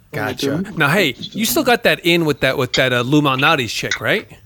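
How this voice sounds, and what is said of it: New York accent. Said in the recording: “I don't know if you could tell by my accent, but I'm from New York.”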